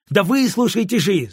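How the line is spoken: Shouting. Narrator (Russian): закричал я

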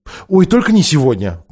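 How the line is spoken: Exclamation. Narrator (Russian): воскликнула Лазарелина

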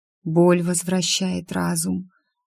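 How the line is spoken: Barely audible. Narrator (Russian): еле слышно проговорила тетя

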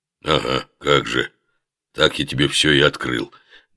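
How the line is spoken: Grumbling lion. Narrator (Russian): буркнул лев

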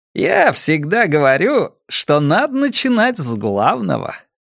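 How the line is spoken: Cheerful announcement. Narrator (Russian): весело возвестил детектив

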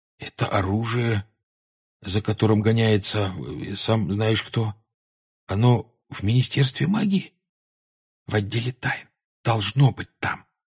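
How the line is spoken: Whispered answer. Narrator (Russian): шепотом ответил Гарри

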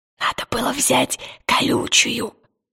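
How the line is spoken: Whisper. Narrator (Russian): прошептал Пантелеймон

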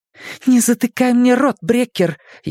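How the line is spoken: Furious hiss. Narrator (Russian): яростно зашипела Нина

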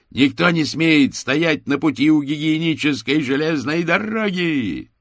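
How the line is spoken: Joyful shout. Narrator (Russian): с радостью увидел, что стражник подбирает с земли желтые осколки, и прокричал

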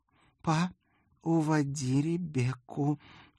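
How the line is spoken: Slightly hoarse furious request. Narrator (Russian): чуть хриплым от ярости голосом попросила моя дочь

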